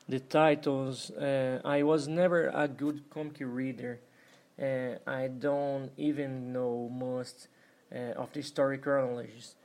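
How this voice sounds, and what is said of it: Non-native English accent, robotic-sounding. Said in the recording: “This is my first interview in English ... I'm sorry for the robotic accent.”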